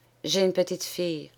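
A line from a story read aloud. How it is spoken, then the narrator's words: Timid confession. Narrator (French): avoua-t-elle timidement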